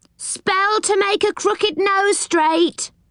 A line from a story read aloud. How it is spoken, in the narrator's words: cried one pixie